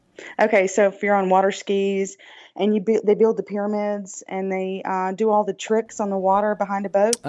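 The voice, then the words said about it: Southern American drawl. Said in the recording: “I'm from the South, if you cannot tell. With my ... Southern drawl.”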